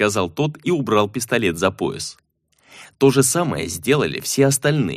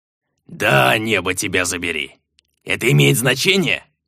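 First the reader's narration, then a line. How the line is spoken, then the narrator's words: Growl. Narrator (Russian): прорычал тот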